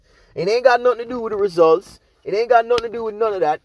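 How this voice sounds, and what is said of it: Speaks with a noticeable accent. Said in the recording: “I have an accent. Sometimes I get tongue-tied.”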